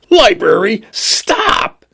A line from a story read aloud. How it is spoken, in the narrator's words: he screamed